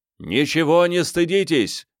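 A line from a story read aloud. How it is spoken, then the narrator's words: Shouted. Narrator (Russian): крикнул он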